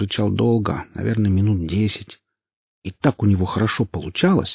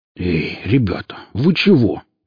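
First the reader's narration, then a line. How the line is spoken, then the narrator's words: Exclaiming. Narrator (Russian): воскликнул Велес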